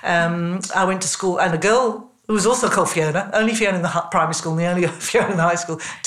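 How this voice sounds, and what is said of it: English accent. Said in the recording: “I was in England, you probably gather from my accent.”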